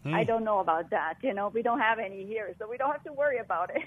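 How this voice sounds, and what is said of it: Slight Swiss accent. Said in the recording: “I do detect a bit of an accent ... I'm from Switzerland.”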